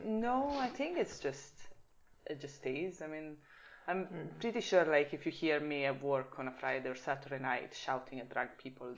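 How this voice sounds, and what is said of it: Swiss Italian accent with Scottish hints. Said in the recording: “my accent is probably Swiss Italian... more of a closed accent... my accent is more of a weird Italian, Scottish... Scottish twang”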